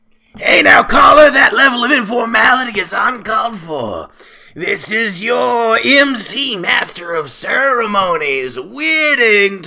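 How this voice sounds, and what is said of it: Wolfman Jack impression. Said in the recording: “doing an impersonation of Wolfman Jack!”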